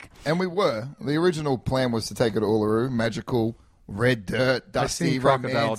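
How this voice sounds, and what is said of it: Australian accent. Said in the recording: “I wanted to wait to tell this story when ... was here so you could hear it in his accent”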